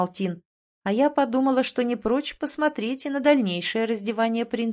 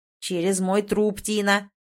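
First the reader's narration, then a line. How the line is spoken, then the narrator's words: Barked inner voice. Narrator (Russian): рявкнул в голове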